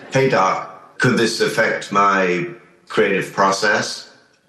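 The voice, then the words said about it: Poor impression, sounds Northern Irish. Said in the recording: “I'm not very good at doing a David Lynch impression, I'll try it ... It sounds like Northern Irish, actually.”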